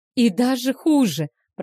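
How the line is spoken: Moaning. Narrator (Russian): простонала та

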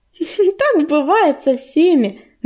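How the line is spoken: Mocking snort. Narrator (Russian): насмешливо фыркнула Листвичка

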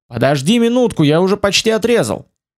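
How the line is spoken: Shouting from afar. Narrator (Russian): Фицрой прокричал с туши дракона

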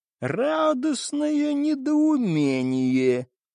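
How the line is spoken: Creaky stranger's voice. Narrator (Russian): проскрипел чужой

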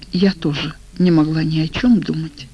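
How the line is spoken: Sighing. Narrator (Russian): вздохнула она

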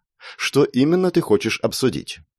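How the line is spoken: Businesslike tone. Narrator (Russian): деловым тоном спросила

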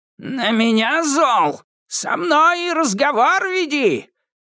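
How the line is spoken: Shouted outburst. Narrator (Russian): выкрикнула она

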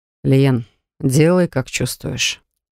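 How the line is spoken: Tired. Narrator (Russian): устало произнес Грегхан

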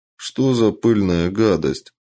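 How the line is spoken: Glum reply, raccoon. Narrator (Russian): уныло ответил енот

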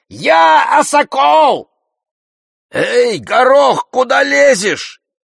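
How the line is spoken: Shouting at full voice. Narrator (Russian): закричал во весь голос

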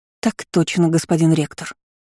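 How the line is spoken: Bleating, trembling small voice. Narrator (Russian): проблеяла Изабелла дрожащим голоском

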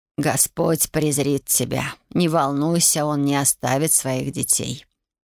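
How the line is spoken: Muffled voice. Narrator (Russian): глухо сказала

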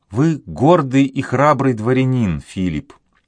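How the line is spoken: Plain. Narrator (Russian): сказала

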